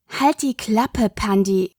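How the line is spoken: Growl. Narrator (German): Das Knurren ihrer Schwester

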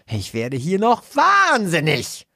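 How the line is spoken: Woman shouting. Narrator (German): schreit sie

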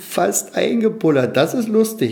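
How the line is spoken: Laughing fish chorus. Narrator (German): lachten die Clownsfische

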